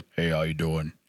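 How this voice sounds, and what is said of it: Deep voice imitating another person. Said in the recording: “deep voice”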